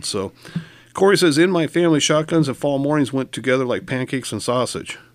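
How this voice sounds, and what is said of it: Voice strained by a cold. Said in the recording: “forgive my voice; I'm struggling a little bit today with a cold”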